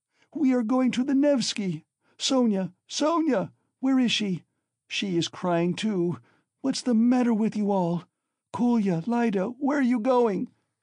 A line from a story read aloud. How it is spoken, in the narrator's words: cried suddenly in alarm